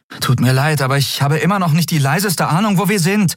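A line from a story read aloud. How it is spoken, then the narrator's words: Calling out. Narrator (German): rief sie Nelen zu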